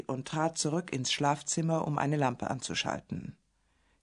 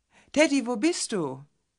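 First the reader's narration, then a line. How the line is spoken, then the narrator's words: Calling again. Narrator (German): rief Elaine noch einmal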